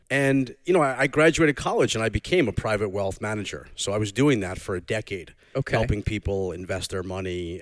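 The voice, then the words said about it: Subdued Long Island accent. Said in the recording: “maybe you can hear my Long Island accent, but I'm from the North Shore, not the South Shore, so it's a little more subdued.”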